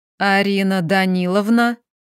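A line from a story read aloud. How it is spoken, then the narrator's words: Growled through clenched teeth. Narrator (Russian): Макса прорычав сквозь стиснутые зубы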